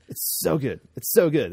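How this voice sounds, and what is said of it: Jimmy Fallon impression. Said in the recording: “It's my Jimmy Fallon impression.”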